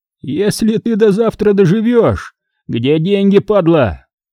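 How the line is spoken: Yelling. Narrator (Russian): заорал Санек

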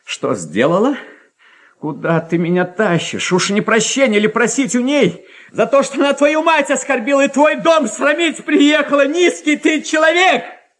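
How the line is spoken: Triumphant defiant shout. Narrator (Russian): Крикнула опять Варя, торжествуя и с вызовом

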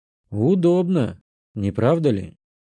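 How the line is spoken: Quiet remark. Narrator (Russian): заметил Эд негромко

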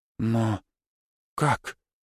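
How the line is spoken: Quiet question. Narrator (Russian): тихо спросила Тараки

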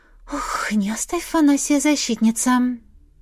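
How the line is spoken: Muttering. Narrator (Russian): Пробормотала я

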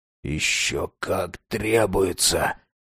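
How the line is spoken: Wheezy rasp. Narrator (Russian): просипел он

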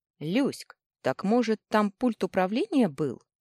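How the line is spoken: Scoffing snort. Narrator (Russian): хмыкнул Компи

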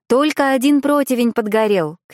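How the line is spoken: Shouted. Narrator (Russian): крикнула Агнета

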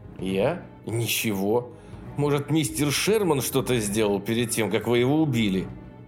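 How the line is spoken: Muttered through teeth. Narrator (Russian): процедил Мэннинг

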